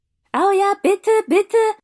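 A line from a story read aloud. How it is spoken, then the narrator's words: Two voices calling eagerly. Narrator (German): rief Tobias und Kevin stimmte mit ein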